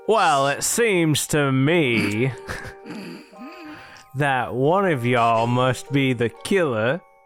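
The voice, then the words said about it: Sudden put-on accent. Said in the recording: “You didn't have that accent a minute ago. ... you were just a regular guy without an accent.”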